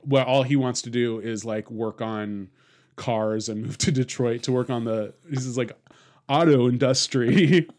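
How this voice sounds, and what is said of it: Bad put-on Baltimore accent. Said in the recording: “That was a bad Baltimore accent”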